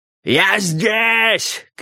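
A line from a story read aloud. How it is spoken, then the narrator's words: Ecstatic shouting. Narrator (Russian): кричал МакГилл, не помня себя от счастья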